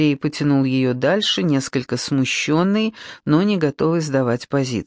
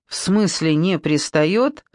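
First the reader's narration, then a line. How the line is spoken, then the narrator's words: Bursting out laughing. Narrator (Russian): Маша расхохоталась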